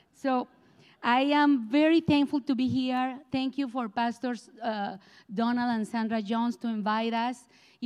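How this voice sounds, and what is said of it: Colombian Spanish accent in English. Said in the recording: “without not too much hard accent... I am from Colombia, South America, and I have this accent”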